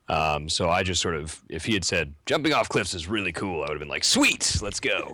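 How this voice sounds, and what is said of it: Slight Canadian accent. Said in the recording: “he's Canadian. As is most of my family, you can probably hear the accent a little bit.”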